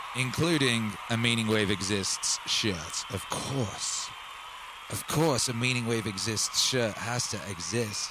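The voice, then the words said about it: Hoarse voice. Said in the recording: “My voice is hoarse. I've been shouting a lot.”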